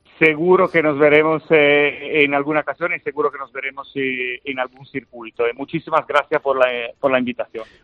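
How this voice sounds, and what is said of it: Italian (Genoese) accent in Spanish. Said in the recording (Spanish): “De Génova, eso sí. ... genovés. ... se nota en el acento”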